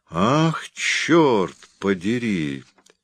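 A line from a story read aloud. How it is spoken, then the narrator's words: Slow, imposing. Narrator (Russian): все так же медленно и внушительно повторил он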